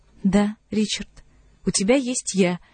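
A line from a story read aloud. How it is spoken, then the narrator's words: Quiet. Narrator (Russian): тихо ответила она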